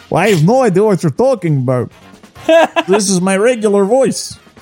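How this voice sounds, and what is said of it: Put-on accent. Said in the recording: “this accent might be creeping into your actual voice”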